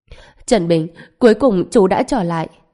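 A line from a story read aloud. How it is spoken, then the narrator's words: Crying. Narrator (Vietnamese): Lâm Thanh Thanh khóc lóc, nói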